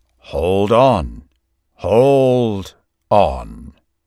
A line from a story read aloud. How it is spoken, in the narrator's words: In a deep and powerful voice, he shouted